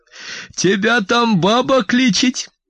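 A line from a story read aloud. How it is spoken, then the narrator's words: Joyful, loud exclamation. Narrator (Russian): радостно и громко воскликнула она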